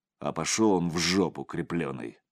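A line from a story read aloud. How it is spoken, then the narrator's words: Elder speaking angrily. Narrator (Russian): зло сказал старший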